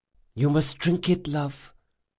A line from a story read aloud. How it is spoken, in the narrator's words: whispered Dracasha